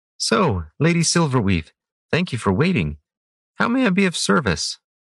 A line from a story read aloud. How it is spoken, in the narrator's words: asked cheerfully